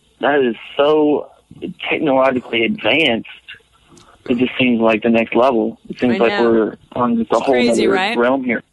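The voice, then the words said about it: Thick Louisiana accent. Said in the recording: “I am from Louisiana. Can you tell? ... You got kind of a sick accent. Thick.”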